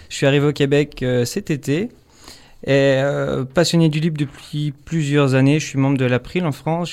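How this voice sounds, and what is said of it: French accent. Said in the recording (French): “Avec mon accent, vous doutez que je suis français.”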